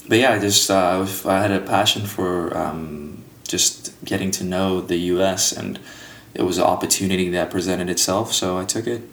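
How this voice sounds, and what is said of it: Speaks with a noticeable accent. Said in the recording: “Glad you never lost the accent.”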